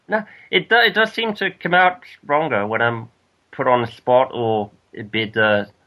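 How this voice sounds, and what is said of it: Definite Australian accent. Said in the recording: “you've still got a definite Australian accent going on there anyway. So you've never lost it”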